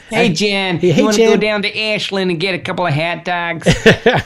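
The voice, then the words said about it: Put-on Chicago accent. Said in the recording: “what is that they say in that Chicago accent?”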